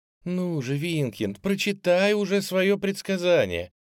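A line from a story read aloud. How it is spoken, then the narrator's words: Pleading. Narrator (Russian): взмолилась Дэмси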